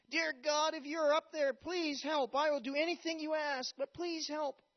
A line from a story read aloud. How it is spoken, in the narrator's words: The man yelled out